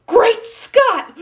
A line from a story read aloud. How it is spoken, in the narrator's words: gasped